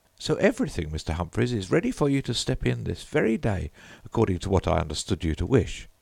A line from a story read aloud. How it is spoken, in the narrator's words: said Mrs